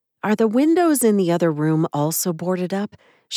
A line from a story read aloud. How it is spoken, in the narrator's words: she asked Lisa